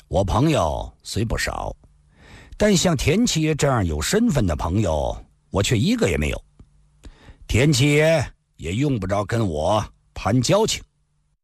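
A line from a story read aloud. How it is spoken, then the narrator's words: Calm, detached. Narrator (Chinese): 李寻欢淡淡地说道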